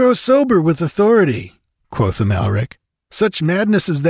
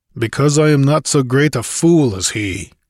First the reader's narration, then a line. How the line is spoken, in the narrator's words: grunted Conan